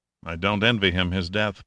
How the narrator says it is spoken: Pitt murmured

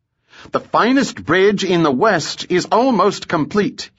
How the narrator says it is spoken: shouted

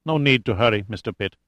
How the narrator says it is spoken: said with a heavy accent, his voice matter-of-fact

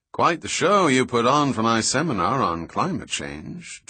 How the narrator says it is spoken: Trout said in his dry New England tone

